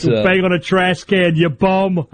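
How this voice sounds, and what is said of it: Boston accent. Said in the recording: “I can hear the Boston accent there.”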